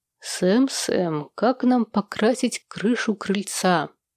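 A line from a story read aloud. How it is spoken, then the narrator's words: Thoughtful. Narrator (Russian): Задумчиво произнес Сэм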